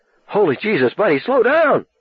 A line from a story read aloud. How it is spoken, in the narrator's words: Richie wailed